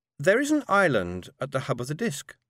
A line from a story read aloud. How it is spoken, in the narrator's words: said Kin sweetly